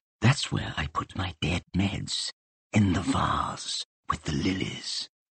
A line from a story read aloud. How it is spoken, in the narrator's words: leant forward and whispered